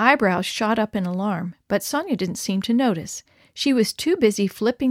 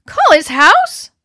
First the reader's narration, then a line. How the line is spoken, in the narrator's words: my voice squeaked